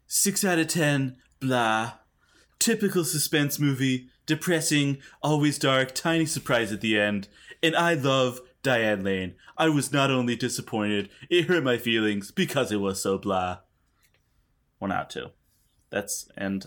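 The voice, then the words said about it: Imitates another person's voice. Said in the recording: “I will put a voice on this ... my Trump impression ... It's not great.”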